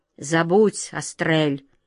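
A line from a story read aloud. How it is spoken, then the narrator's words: Muffled, hollow voice. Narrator (Russian): глухо проговорил Каргор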